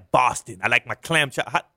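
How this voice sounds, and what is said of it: Weak attempt at Boston accent. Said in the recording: “I can't do a Boston accent.”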